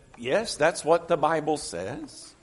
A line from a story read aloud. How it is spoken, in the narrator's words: the preacher calmly said